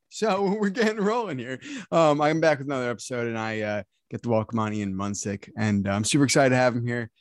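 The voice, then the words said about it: Deeper morning voice. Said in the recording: “your voice sounds a little bit deeper ... it's the first thing I've said all morning ... my voice has dropped down and I don't sound like a 13-year-old kid”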